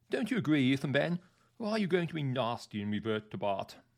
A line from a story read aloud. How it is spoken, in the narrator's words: I said cheerfully